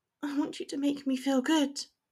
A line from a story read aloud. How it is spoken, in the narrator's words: she whispered